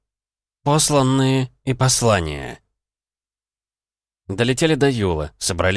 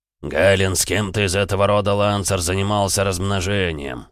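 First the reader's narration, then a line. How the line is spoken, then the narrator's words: Deep bass blurt. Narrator (Russian): сходу пробасил бронзовый трепач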